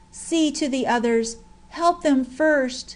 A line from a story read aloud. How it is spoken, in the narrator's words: Madge's voice was heard faintly murmuring